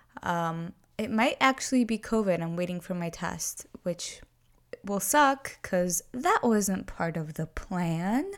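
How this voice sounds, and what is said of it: Sick-sounding voice. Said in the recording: “I'm a little bit sick, so you have to excuse my voice.”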